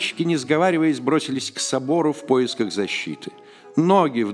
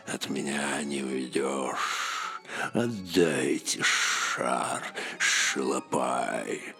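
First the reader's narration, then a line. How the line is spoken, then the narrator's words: Hissing. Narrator (Russian): От этого шипения ужас стискивал грудь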